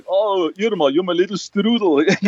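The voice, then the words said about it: Thick put-on Austrian accent. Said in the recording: “he also has a very thick accent ... doing the whole like Austrian like stereotype”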